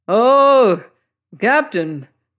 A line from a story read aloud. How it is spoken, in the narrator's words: they roared